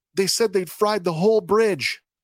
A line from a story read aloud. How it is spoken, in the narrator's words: the first man, who's still quite agitated, blurts out